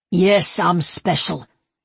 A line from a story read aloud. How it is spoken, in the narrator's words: he growled